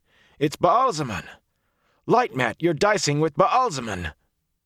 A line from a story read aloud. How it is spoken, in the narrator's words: he shouted